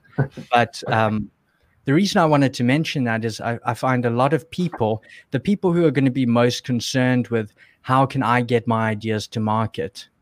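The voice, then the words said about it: South African accent. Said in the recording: “I was still in South Africa, which is where I'm from. You can probably hear my accent.”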